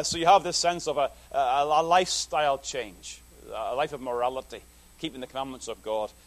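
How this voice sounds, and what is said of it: Noticeably accented speech. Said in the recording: “Is my accent causing you trouble again?”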